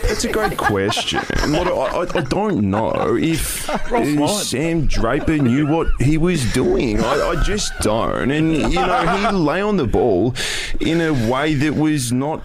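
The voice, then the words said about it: Impression of Damo Barrett. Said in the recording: “I do have a good impersonation ... Of Damo Barrett.”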